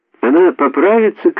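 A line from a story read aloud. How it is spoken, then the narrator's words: Shouted. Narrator (Russian): кричала Урсула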